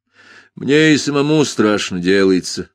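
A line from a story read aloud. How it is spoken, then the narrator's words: Grim agreement. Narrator (Russian): мрачно согласился я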